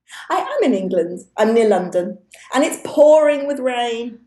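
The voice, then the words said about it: Loud voice, British accent. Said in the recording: “I've got a loud voice, probably. ... And a British accent ... And it's a real one.”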